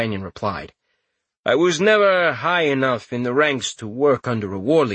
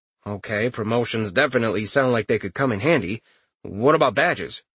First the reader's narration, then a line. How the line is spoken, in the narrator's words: Richter asked